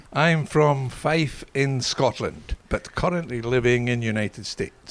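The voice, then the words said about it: Scottish accent. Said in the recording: “you do have that Scottish accent.”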